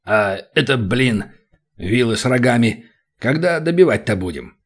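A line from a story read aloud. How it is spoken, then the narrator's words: Deep bass, slightly flustered. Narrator (Russian): Пробасил слегка растерявшийся барс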